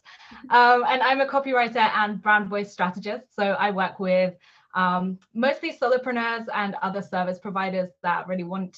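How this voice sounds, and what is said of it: British accent. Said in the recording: “I'm based in the UK, if you can't tell from my accent”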